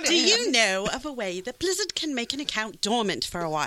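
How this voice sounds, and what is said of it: Put-on British accent. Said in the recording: “Can you read that with a British accent?”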